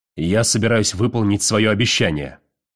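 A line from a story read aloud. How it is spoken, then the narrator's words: Barked. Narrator (Russian): рявкнул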